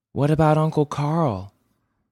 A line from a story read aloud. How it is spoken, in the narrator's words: I asked